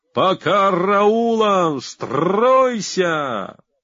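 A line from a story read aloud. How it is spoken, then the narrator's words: Booming breathless yell. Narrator (Russian): захлебываясь и щеголяя громовым своим голосом, на весь манеж вопит плацадъютант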